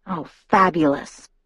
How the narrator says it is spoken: I muttered

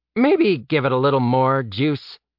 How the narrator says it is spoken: Eddie noted, his voice dry

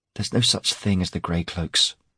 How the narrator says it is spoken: she said bitterly

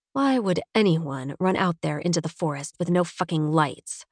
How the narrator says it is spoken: I mutter

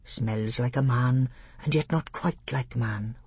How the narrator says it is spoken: whispered Truffle Hunter

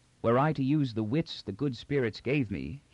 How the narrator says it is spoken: he said

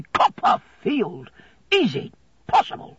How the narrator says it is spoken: exclaiming loudly

